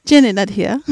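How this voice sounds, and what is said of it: Bad put-on accent. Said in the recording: “do a bad accent”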